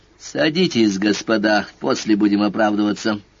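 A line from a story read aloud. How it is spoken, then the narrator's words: Grim, through clenched teeth. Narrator (Russian): мрачно процедил Сварог, стараясь попадать в тон Рошалю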